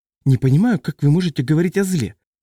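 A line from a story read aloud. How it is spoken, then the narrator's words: Exclamation. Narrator (Russian): воскликнула Сандра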